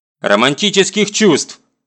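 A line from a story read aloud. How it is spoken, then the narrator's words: Angry explanation. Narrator (Russian): сердито поясняю я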